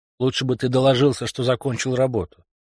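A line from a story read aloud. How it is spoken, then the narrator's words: Grumbling. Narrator (Russian): проворчал Хендерсон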